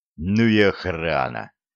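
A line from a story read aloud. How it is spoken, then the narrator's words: Dejected snort. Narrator (Russian): хмыкнул юноша, удрученно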